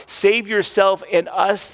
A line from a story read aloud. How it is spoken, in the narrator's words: they cried